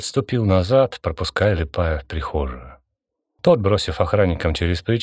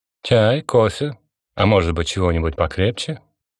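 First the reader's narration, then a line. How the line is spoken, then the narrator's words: Tired, failed irony, ambiguous. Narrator (Russian): Константин попытался произнести эти слова ироническим тоном, но то ли от усталости, то ли от чего другого, фраза получилась двусмысленной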